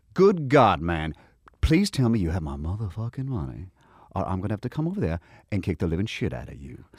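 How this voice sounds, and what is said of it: Southern character voice with Georgia cadence. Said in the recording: “Georgia way he speaks ... that cadence ... it is about the cadence ... it's not like I'm doing an authentic New Orleans accent ... he's Southern”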